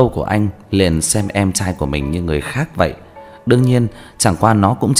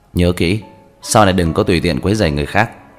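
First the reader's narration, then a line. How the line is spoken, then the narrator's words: Cold, low warning. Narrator (Vietnamese): Đáy mắt của Lam Băng Tuyền lạnh nhạt chưa tàn hết, nheo mắt lạnh lùng nhỏ giọng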